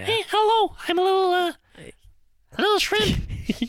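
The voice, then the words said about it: Cartoon shrimp character voice. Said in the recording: “my impression of the shrimp ... Shrimp number three from Shark Tale”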